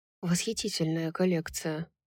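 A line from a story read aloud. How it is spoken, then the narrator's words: Whispered. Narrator (Russian): прошептал он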